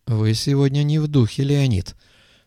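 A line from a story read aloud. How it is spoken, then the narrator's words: Sighed. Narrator (Russian): вздохнул Стивен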